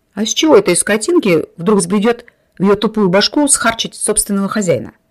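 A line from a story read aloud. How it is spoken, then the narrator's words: Laughing. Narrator (Russian): засмеялся Семен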